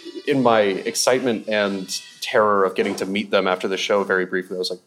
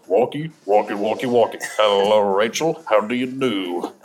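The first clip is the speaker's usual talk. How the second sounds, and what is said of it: Low, rough imitated voice. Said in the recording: “I do a really good Broden impression ... that's not his natural speaking voice ... it's low, but like he really leans into roughness”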